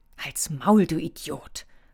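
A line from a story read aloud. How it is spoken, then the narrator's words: Quiet hiss. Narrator (German): fauchte leise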